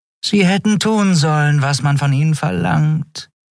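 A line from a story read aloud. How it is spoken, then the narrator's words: Purring from behind. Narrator (German): schnurrte Shi'ar hinter seinem Rücken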